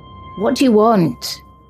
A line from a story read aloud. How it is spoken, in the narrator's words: Riley called out to him, his voice unsteady